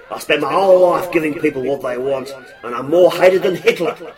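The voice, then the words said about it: Shonky put-on accent. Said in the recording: “A shonky accent”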